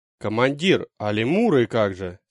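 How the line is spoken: Plain question. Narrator (Russian): спросил Мумба

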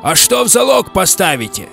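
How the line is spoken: Shout from opposing crowd. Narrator (Russian): выкрикнули из противоположной ватаги

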